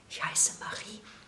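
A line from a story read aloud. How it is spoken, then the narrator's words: Whispering. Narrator (German): flüsterte sie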